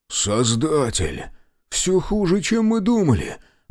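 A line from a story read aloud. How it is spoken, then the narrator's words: Dismayed exhale. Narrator (Russian): выдохнул Федот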